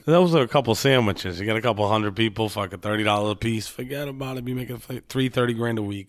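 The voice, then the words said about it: Rhode Island accent. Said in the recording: “I hope I don't lose my Rhode Island accent down here. It makes me stand out.”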